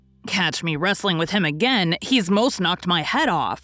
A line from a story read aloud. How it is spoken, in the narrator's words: snarled Jack